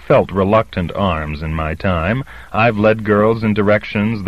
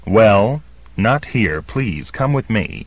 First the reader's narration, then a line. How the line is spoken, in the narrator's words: she said crossly